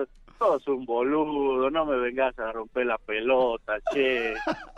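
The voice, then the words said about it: Put-on Argentine Spanish accent. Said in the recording (Spanish): “increíble, increíble ese acento argentino. Nada más te faltó un poquito.”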